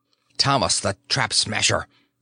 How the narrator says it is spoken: he said sharply, barely managing to keep his voice low

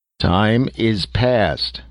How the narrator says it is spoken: roared in tones deep as the cathedral bell

